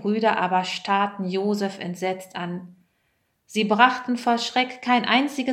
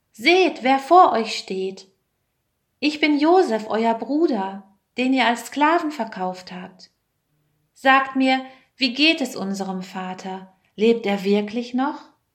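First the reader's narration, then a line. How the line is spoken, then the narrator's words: Called out. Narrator (German): rief er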